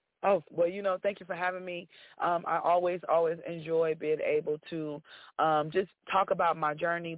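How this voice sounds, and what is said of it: Hoarse voice. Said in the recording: “My voice is is hoarse because I've been doing so many interviews”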